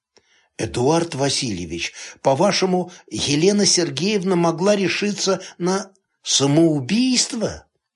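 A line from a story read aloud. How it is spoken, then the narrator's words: Hesitant, stammering after cough. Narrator (Russian): Горшков кашлянул в кулак и спросил неуверенным, запинающимся голосом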